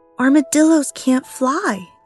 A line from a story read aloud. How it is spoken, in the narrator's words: yelled Sally